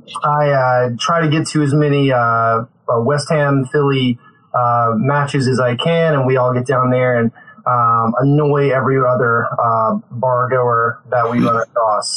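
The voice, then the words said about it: Southern US accent. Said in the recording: “a delicious southern accent, that is because I'm originally from North Carolina”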